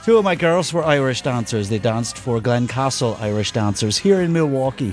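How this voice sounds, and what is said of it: Put-on northern Irish accent. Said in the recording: “he can speak the Irish accent ... You have a northern accent. You're definitely from ... the north. ... Yes, you nailed it.”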